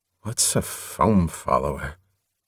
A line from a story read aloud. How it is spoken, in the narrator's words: Watching that concentration of emotion, he murmured